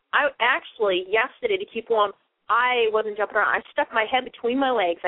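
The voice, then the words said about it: Boston accent. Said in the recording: “I know I talk funny with the whole Boston accent”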